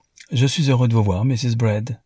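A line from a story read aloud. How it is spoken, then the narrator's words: Plain. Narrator (French): dit Newman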